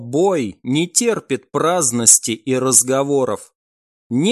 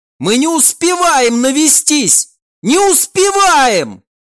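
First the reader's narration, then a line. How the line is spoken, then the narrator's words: Yelling. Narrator (Russian): Уже заорал и сам Альф-наводчик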